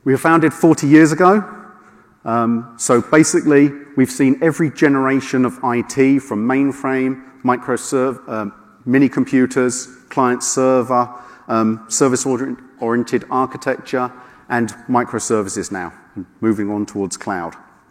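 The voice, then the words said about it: Non-American sounding accent. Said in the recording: “Don't let my accent fool you. We are US-based”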